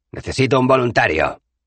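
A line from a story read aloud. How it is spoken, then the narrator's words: Firm voice. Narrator (Spanish): dijo con voz firme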